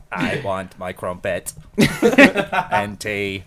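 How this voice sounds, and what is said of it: British robot accent. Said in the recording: “do a British robot accent”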